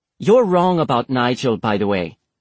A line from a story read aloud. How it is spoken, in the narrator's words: Isabella snapped